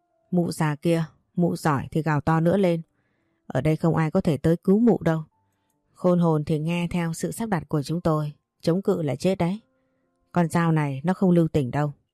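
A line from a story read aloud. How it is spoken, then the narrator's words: Harsh, menacing voice. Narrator (Vietnamese): nó gằn giọng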